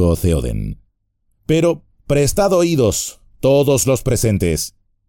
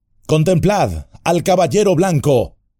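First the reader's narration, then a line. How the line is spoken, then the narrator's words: Shouted. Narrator (Spanish): gritó Aragorn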